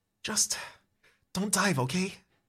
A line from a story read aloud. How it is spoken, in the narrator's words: You whisper to it